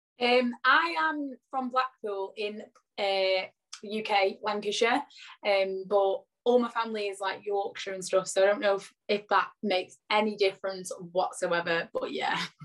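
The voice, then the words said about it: Husky, hoarse voice. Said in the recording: “lost my voice because I had a bit of a chest infection. So if I sound a bit husky, that is why.”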